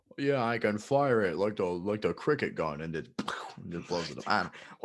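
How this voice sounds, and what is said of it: Goofy dumb-sounding character voice. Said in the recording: “What accent was that? ... I guess it's my dummy voice.”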